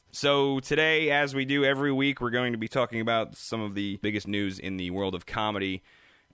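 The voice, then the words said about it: Deep husky sick-sounding voice. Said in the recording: “my best Barry White imitation... I got a little sick over the weekend in my voice... you get a little sexy in your voice... You definitely sound different”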